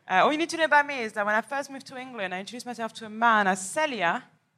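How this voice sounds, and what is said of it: French accent. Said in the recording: “accent that you're hearing is going to stay on the whole time ... This accent is from France”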